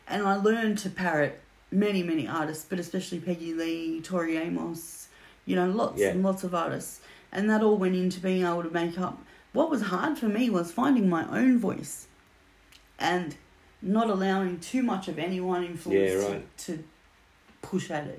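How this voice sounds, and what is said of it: Australian accent. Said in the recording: “I've kept the Aussie ... accent ... mostly”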